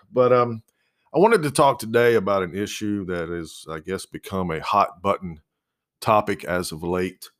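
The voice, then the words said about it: Phlegmy, congested voice. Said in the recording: “I'm a little phlegmy today.”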